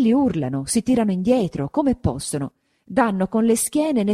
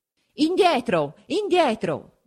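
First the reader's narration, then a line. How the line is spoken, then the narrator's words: Halberdiers shouting. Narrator (Italian): gridano gli alabardieri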